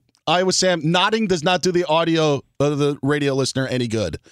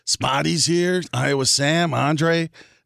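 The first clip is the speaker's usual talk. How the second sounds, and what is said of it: Raspy New York-style impression. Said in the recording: “a Covino impersonation ... Is that kind of like in New York? Is that like it's a little raspy?”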